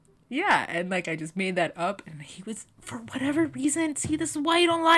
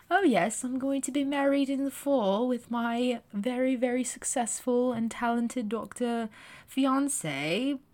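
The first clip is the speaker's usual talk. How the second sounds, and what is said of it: Poorly done put-on accent. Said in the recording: “That accent is terrible, I'm sorry.”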